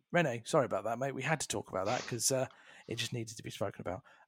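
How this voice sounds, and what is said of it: Tired, degrading voice. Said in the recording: “Before my voice also goes as well. You might be able to tell my voice has started slowly degraded as the podcast has gone on.”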